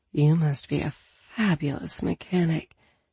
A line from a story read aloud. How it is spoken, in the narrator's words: she murmured